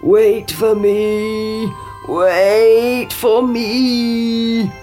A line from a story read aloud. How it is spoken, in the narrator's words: croaked the frog